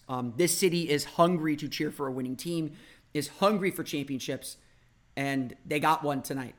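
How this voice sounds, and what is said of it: Slightly hoarse voice. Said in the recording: “You could probably tell I'm a little hoarse.”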